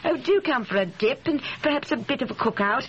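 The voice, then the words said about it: Poorly imitated English accent. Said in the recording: “I think she's English. ... If she has an accent like that, she is certainly not American or anything else. You're not good at accents, honey.”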